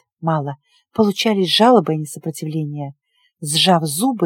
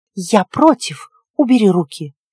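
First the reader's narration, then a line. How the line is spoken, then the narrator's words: Indignant hiss. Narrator (Russian): я искренне возмущенно зашипела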